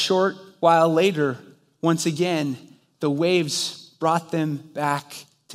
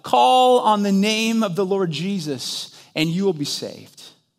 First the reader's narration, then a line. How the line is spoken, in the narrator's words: As the waves pulled them apart, Harper called out